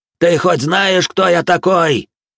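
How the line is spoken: Frantic yelling grey-haired man. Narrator (Russian): Истошно заорал на меня седой

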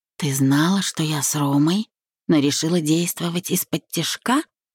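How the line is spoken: Flat, stating tone. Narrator (Russian): Скорее констатируя, чем спрашивая, произнесла Вика

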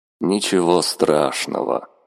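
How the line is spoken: Gloomy reply. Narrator (Russian): мрачно откликнулся Михаэль

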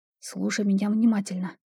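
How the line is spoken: Quick whisper. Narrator (Russian): быстро зашептала я

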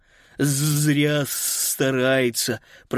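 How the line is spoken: Lisping. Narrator (Russian): прошепелявил Паскаль

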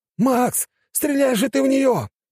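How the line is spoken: Yelling. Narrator (Russian): орал княжич

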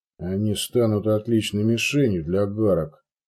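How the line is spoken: Muttered. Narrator (Russian): буркнул Петер

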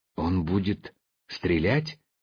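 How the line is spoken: Quiet question. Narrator (Russian): тихо спросил Хлюпик

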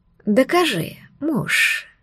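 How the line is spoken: Whispered. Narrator (Russian): шепнула Лилиан

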